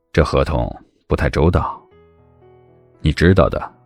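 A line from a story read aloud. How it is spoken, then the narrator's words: Low, stern voice. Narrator (Chinese): 孟年华就咳了一声，素着脸，沉声道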